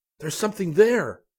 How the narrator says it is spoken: he exclaimed

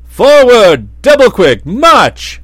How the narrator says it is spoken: said the captain of the soldiers, and then he turned to his men and shouted

